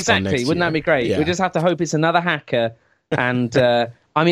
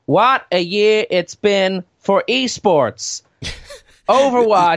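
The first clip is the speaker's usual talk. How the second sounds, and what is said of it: Impression of Mike Morhaime. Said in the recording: “I could go out as a stunt Morhaime ... a little bit more on that impression ... It's a perfect impression.”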